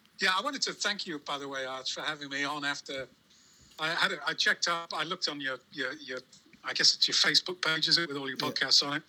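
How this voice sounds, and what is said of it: English accent. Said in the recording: “You've got the English accent”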